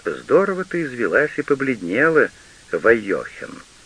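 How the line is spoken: Plain. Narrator (Russian): сказал дед

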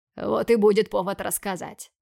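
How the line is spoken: Snorting. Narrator (Russian): хмыкнул муж

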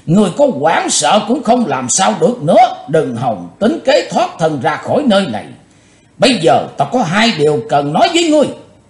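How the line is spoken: Loud laughing speech. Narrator (Vietnamese): Quái nạp Mộc Thông miệng lớn tiếng cười nói

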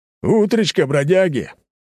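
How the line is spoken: Rough male shout. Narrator (Russian): выкрикнул из открывшейся двери грубый мужской голос

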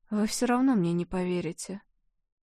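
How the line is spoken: Hoarse, sad voice. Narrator (Russian): Маргит хрипло печально произнесла

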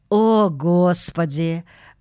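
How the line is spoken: Sigh. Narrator (Russian): вздохнула миссис Бёрд

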